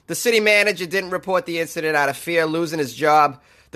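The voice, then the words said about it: Put-on Boston accent. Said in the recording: “I'm going to do the rest of this article in a Boston accent.”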